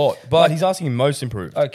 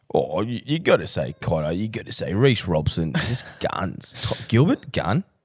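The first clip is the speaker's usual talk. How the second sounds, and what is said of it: Imitates another person's voice. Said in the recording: “I'm just going to impersonate Jimmy here.”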